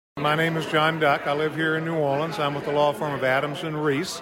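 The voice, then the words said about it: Southern US accent. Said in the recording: “very nice, gone with the wind Southern accent”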